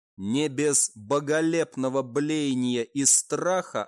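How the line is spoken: Plain. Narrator (Russian): ответил культист

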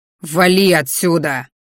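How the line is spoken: Angry growl. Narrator (Russian): рыкнул я

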